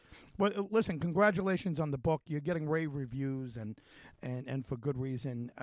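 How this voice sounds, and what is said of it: New York accent. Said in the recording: “it's also very good to hear a New York accent again ... I always think I don't have an accent and that everyone else does, but that's my my egocentric from uh, being from New York”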